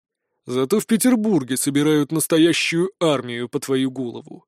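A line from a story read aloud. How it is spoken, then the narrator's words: Gloomy objection. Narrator (Russian): мрачно возразил мой собеседник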